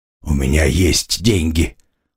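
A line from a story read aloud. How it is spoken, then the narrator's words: Tired, slightly angry. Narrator (Russian): устало и немного злобно произнес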